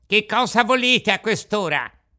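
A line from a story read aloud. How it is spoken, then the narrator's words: Angry old man shouting. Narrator (Italian): un vecchino il quale gridò tutto stizzito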